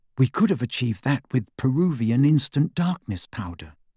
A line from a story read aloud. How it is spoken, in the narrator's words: whispered Hermione through the dark